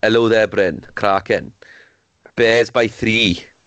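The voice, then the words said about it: Put-on Welsh accent. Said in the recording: “You had the best Welsh accent, mate. ... Wait, Welsh. ... It was so spot on.”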